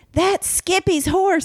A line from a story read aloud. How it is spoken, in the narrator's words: Husky yelled, not having adjusted for the lack of grinding gears